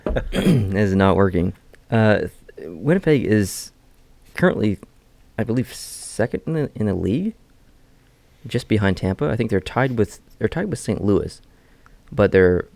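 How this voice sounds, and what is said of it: Strained, hoarse voice. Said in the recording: “I'm losing my voice. ... With the throat? Yeah, this is not working.”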